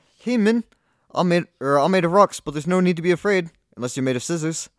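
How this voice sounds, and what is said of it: Put-on New Zealand accent, character voice. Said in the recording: “my Kiwi accent is awful ... New Zealand impression ... That was better.”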